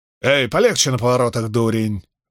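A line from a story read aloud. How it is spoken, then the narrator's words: Man's wail, slum accent. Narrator (Russian): возопил мужской голос с характерным акцентом лондонских трущоб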